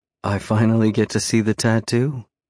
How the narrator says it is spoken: She purrs playfully

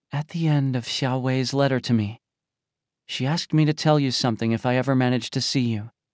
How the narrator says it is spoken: AA gently whispered to Tianming

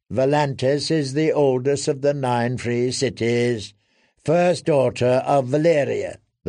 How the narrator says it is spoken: the lad replied in a bored tone

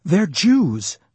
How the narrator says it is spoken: I blurted

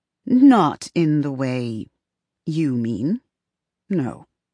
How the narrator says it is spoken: Evelyn thinks and then answers slowly

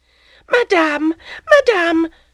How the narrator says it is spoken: cried Félicité

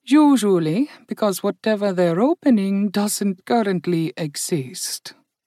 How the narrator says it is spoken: Indali murmured

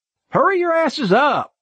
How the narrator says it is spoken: Jason yelled from in front of us

